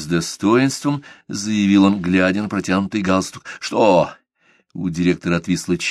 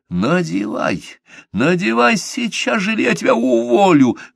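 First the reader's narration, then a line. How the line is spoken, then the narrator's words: Loud hiss. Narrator (Russian): громко зашипел босс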